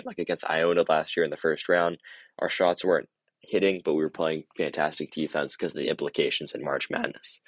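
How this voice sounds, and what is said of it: Hoarse, strained voice. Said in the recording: “I'm losing my voice here ... my voice has just killed me towards the late part of”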